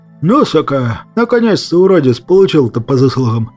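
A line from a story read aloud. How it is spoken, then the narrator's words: Hopeful exhale. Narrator (Russian): С надеждой выдохнул я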